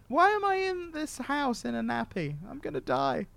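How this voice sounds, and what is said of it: Posh Queen-like British voice. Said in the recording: “I like your British voice when you went into that... you totally went like Queen on that.”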